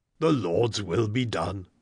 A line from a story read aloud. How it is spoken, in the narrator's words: the squire echoed solemnly